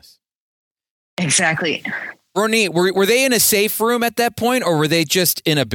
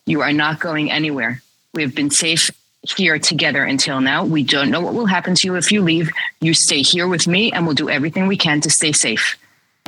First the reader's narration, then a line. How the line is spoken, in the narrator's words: very calmly said and assertively, she said